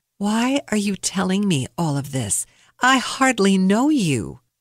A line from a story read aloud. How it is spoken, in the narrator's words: I calmly asked